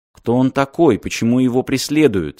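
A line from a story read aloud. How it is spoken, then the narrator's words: Plain. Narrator (Russian): спросил Мартин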